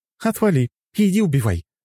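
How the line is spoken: Exclaiming. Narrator (Russian): воскликнула Лора

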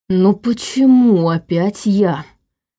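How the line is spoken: Moaning. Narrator (Russian): простонал Иван, оценив масштабы произошедшего

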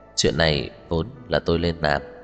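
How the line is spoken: Soft laugh. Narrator (Vietnamese): Cố Dư Sinh cười khẽ

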